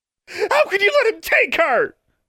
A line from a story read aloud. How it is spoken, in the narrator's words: Alexandra screamed at Dean Grimm